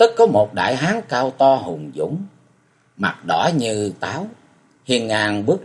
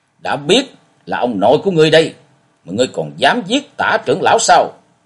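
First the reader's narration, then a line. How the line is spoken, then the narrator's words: Loud shouted question. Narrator (Vietnamese): Lâm Sương quát lớn hỏi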